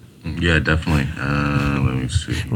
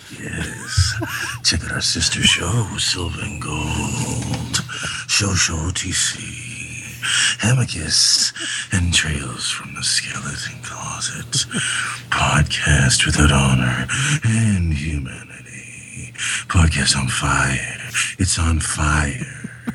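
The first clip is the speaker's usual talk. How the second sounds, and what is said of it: Seductive put-on character voice. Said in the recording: “in your seductive Bobby voice”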